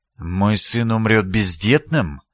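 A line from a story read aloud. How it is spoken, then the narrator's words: Soundless breathed question. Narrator (Russian): беззвучно выдохнул герцог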